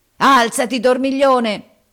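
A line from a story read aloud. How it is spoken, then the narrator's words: Roared. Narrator (Italian): ruggì Harris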